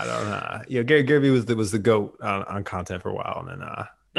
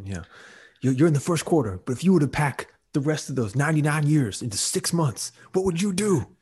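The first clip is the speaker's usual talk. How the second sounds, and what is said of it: Imitates another person's voice. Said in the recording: “my best Gary Vee impression ... it was like a Gary Vee meets like Don King”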